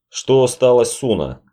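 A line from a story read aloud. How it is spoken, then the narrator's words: Plain. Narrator (Russian): спросил Запад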